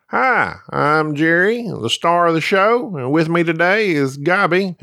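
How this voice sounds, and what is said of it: Understated impression with slight twang. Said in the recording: “That was my impression of Jerry. I decided not to be, you know, too over the top with it. Jerry does have a little bit of a twang”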